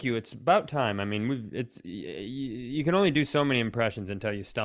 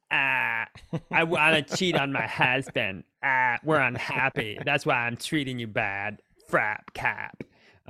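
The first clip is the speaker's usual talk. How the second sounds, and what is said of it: Imitates another person's voice. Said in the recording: “That's my her impression. ... That's actually a really good one.”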